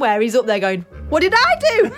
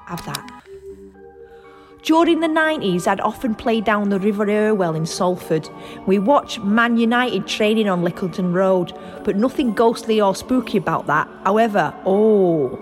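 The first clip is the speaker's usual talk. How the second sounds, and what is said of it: Put-on Salford accent. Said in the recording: “I could do a Salford accent. ... Try and make it realistic.”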